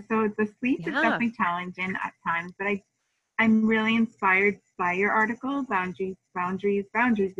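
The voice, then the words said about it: Slightly froggy, hoarse voice. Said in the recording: “you can tell by my voice, it's a little froggy. We're all not well in my house.”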